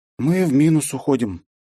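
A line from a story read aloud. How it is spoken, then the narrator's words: Heavy sigh. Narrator (Russian): тяжело вздохнула Бета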